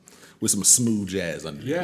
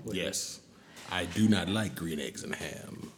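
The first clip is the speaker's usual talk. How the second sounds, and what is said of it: Sultry, smooth low reading voice. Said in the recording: “this sultry voice that you're hearing ... I will read Dr. Seuss in this sultry voice.”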